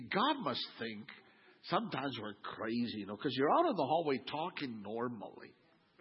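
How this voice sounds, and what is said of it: Usual voice. Nothing is said of it.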